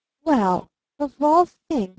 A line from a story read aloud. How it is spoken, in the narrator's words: stammered Barton